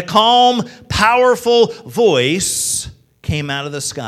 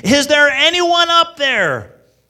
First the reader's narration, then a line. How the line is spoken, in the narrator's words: Filled with terror, he called out towards the heavens